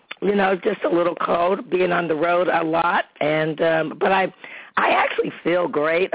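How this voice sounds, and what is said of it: Hoarse, strained voice. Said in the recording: “excuse my little um, uh, laryngitis voice ... I'm going to try to stay in a range where I can keep my voice going ... I just sound a little bit hoarse”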